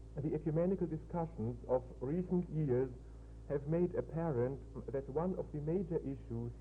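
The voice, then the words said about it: Thick German accent in English. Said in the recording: “patience with my German, thick German accent and some other deficiencies in my English”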